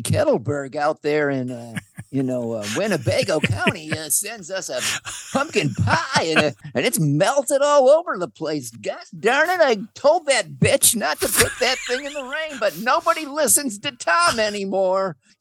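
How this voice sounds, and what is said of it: Impression of weatherman Tom Skilling. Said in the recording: “that's a really good impression of Tom Skilling. He's this weatherman”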